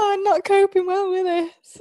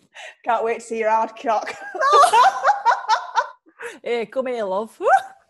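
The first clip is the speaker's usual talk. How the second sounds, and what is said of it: Put-on northern English accent. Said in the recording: “A northern accent.”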